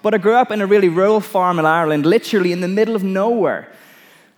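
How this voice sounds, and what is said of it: Irish accent, slightly American. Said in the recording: “I actually grew up on a farm in Ireland, right? If you're trying to work out the accent, that's kind of what it is. It's a little bit American”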